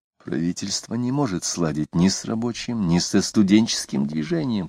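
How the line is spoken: Whisper. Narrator (Russian): шептал Самгин

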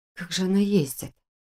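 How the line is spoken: Muttering to no one. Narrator (Russian): пробормотала я, никому конкретно не обращаясь

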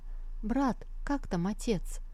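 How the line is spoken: Quiet question. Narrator (Russian): Сандзю тихо спросила

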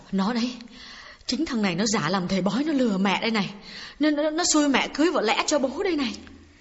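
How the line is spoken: Trembling quiet old woman. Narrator (Vietnamese): Bà run run nói nhỏ với con gái

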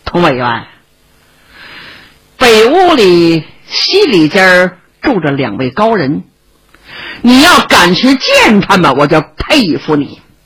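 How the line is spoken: Smiling. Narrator (Chinese): 庄主爷一笑

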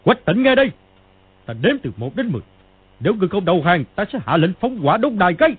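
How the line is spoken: Old man's loud shout. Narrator (Vietnamese): Lão quát to

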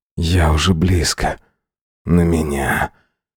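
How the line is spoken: Disbelieving whisper. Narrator (Russian): прошептал я, едва веря в то, что говорю

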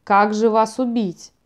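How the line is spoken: Grumbling. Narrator (Russian): проворчал он

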